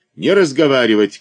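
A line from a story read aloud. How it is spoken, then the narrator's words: Shout. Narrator (Russian): крикнул Третьяков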